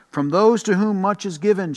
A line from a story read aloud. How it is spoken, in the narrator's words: she said